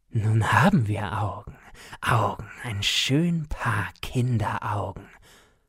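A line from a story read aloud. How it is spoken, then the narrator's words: Whisper. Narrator (German): flüsterte Coppelius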